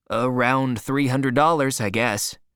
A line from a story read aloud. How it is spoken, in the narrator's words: Matt answered